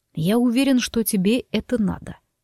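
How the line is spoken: Calm objection. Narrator (Russian): совершенно спокойно возразил он

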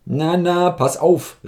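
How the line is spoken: Called out. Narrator (German): rief Kowaljow

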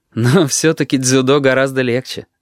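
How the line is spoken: Laughing. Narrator (Russian): рассмеялся он

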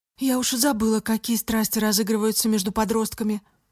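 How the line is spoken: Sighing mother. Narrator (Russian): вздохнула мама

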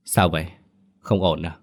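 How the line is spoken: Hesitant soft question. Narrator (Vietnamese): ông Thành cũng ngần ngại, khẽ hỏi

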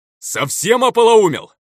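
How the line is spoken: Harsh yell. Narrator (Russian): заорал некрос неблагозвучно

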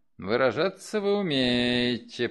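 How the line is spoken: Drawling. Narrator (Russian): протянул Крэмер

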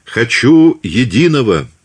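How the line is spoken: Loud. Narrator (Russian): громко сказала Екатерина

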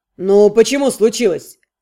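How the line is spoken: Governor's snort. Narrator (Russian): Наместник хмыкнул

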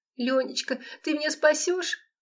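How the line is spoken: Sobbing. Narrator (Russian): всхлипнула Лола

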